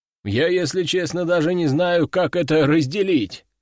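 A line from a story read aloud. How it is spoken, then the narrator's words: Chuckling. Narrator (Russian): хохотнул второй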